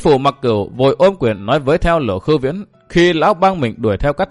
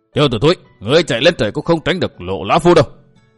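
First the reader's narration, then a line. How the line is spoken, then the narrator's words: Roaring. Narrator (Vietnamese): Lộ Khưu Viễn gầm lên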